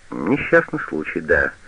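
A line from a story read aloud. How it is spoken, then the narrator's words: Repeated. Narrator (Russian): повторил врач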